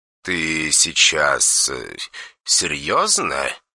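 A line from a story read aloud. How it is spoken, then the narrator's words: Quiet question. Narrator (Russian): тихо спросил меня Дэн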